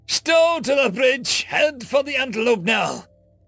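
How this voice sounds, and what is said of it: Slight put-on accent, yelling. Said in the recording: “put on a slight accent, trying to impersonate a man long since gone”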